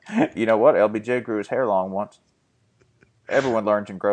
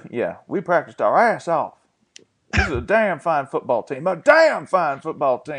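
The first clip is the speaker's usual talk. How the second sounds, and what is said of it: Gruff Texan impression of Art Briles. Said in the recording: “inside every Texan accent, there's just a McConaughey like creeping out. It's not quite hostile enough for Briles. You have to be a little louder with Briles... I can't really go full Briles... there's like a pissed off for greatness element to it.”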